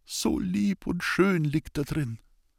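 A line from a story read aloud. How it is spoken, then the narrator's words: Tearful whisper. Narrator (German): Mit nassen Augen stand sie vor dem heiligen Grab und flüsterte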